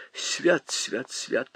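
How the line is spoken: Old woman muttering. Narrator (Russian): бормотала старуха в черном платочке

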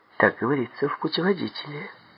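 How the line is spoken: Sad reply. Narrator (Russian): печально ответила она

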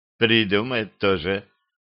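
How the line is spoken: Sighed. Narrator (Russian): вздохнул

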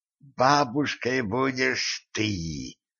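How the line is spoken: Hoarse croak. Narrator (Russian): прохрипела Катран

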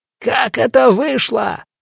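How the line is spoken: Furious yell. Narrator (Russian): заорал побагровевший от злости сержант

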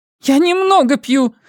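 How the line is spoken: Snapping retort. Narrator (Russian): огрызнулась

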